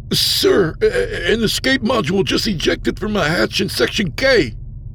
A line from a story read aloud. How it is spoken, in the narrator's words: Aldo sputtered